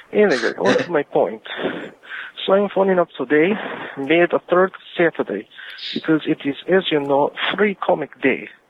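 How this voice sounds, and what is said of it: Deliberately bad put-on accent. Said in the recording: “another terrible accent”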